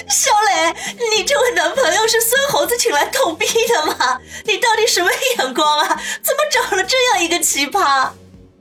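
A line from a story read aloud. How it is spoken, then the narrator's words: Shaking with mocking laughter. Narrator (Chinese): 黄雅琴却笑得浑身肥肉乱颤 说道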